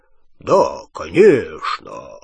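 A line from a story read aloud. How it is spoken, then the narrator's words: Low borrowed voice. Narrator (Russian): низким голосом Ранкорна ответил Гарри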